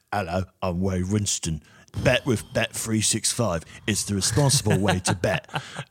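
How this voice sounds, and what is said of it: Imitates another person's voice. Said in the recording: “What accent is he trying to do in half these scenes? ... then he goes into like strange Ray Winston America”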